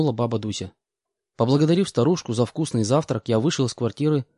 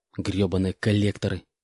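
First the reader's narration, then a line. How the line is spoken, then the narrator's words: Hissing. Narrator (Russian): прошипел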